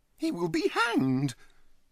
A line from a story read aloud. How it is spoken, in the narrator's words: he exclaimed with conviction